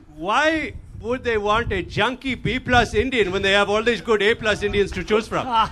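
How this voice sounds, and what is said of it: Imitated Indian accent, father's voice. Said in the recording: “I'm going to give you the Indian accent again.”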